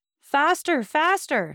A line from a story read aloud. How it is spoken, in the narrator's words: he cried in a tone which electrified the coachman